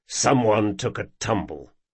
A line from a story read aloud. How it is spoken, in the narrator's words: muttered Jean